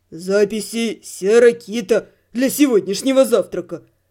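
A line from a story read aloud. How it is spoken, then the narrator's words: Deep bass, man. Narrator (Russian): пробасил мужик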